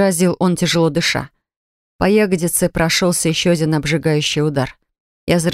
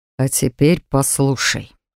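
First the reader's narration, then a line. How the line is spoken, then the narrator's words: Through gritted teeth, deep breath. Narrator (Russian): процедил он, делая глубокий вдох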